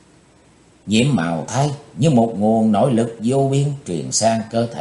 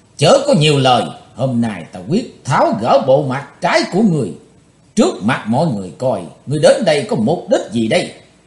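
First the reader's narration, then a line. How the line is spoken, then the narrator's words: Loud roar. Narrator (Vietnamese): cái thấy hồng đã gầm to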